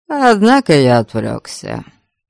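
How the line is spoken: Calm continuation. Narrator (Russian): опять спокойно продолжил Абальд

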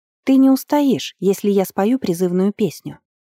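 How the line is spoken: Plain. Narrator (Russian): так Верховный сказал

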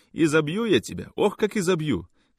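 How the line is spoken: Mother shouting. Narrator (Russian): кричала мать

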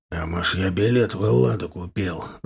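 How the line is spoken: Angry growl. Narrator (Russian): Злобно рыкнул Капа

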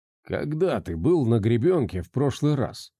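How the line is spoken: Quiet question. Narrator (Russian): негромко спросил Андрюха

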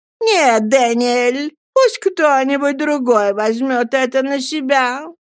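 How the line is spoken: Whining voice. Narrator (Russian): ноющим голосом сказала миссис Гумидж

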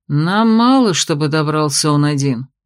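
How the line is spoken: Sullen grumble. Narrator (Russian): хмуро проворчал Феодорис

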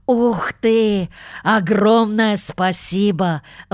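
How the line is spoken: Exclaimed. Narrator (Russian): воскликнул он

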